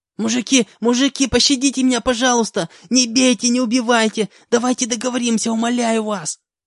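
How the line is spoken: Sudden pleading squeal. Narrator (Russian): Вдруг начал визжать он

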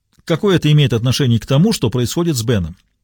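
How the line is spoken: Sharp, curt. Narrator (Russian): резко бросила Диана

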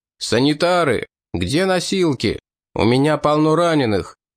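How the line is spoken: Loud shout. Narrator (Russian): врач громко закричал

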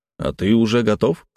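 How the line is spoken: Snorting smirk. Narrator (Russian): хмыкнул

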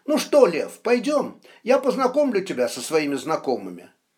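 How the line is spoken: Cheerful. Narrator (Russian): Кричко весело произнес

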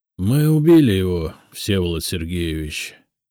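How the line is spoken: Groaning. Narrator (Russian): простонал Виктор

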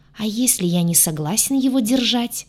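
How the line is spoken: Sarcastic hiss. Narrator (Russian): саркастически прошипел рогатый

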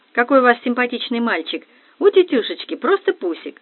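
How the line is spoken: Insincere exclamation. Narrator (Russian): я лицемерно воскликнула

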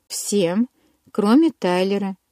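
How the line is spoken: Calm correction. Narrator (Russian): спокойно поправила Анжела

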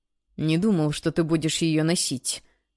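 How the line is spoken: Quiet confession. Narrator (Russian): тихо признался Лукас

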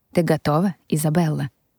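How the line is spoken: Tender question. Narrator (Russian): спросил Эмиль нежным голосом

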